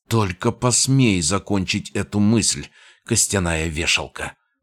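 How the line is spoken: Hissing woman. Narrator (Russian): прошипела она

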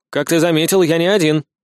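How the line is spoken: Snort. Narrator (Russian): Сид хмыкнул

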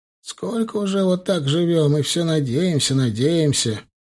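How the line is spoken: Sad. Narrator (Russian): печально

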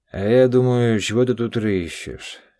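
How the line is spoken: Disappointed drawl. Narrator (Russian): С разочарованием протянул мутный глаз

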